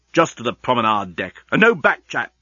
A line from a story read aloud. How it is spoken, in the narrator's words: snapped Leovinus